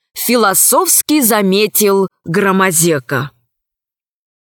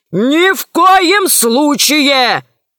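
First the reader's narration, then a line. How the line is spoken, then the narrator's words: Shouting. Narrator (Russian): закричал Селезнев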